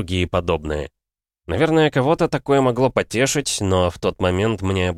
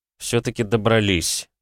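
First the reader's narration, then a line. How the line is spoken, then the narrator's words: Pleased mutter. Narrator (Russian): довольно пробормотал я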